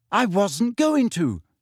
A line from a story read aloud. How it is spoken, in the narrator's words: she shouted